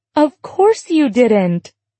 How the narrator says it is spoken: she said with a laugh

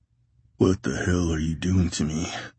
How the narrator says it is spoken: Tate groaned

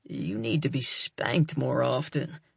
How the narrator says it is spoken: he grumbles

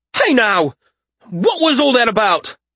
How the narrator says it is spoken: Tam shouted

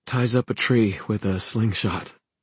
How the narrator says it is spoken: she said almost in a whisper

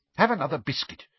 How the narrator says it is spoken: she said irritably

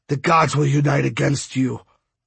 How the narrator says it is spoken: Bird said with a grunt

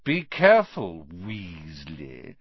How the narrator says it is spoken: sneered Malfoy

